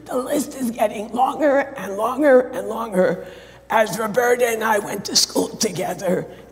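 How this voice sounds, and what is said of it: Strained voice. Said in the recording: “my voice is not straining because I'm sick. It's the result of a vocal dysphonia”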